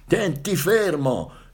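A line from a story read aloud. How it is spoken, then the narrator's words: Grandfather shouting over wind. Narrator (Italian): gridò il nonno che appena si sentiva da un capo all'altro della barca nel fischiare del vento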